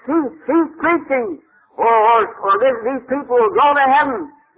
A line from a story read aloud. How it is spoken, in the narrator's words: somebody shouted